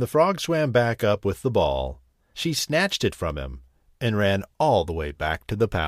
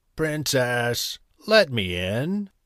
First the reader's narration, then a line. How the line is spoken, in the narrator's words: called a croaky voice